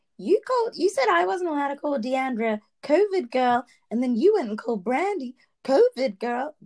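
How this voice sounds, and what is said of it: Bad impersonation of a castmate. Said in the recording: “That was a really bad impersonation.”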